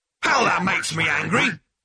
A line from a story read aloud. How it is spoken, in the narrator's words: bellowed the machine